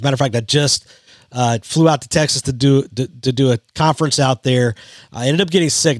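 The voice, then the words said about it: Rough, strained voice. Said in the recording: “my voice is a little jacked up today”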